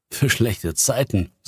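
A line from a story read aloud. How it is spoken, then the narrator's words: Laughing. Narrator (German): sagte er lachend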